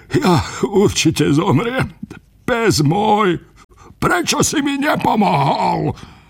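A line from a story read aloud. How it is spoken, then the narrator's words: Lamenting, wailing. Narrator (Slovak): Ráno nariekal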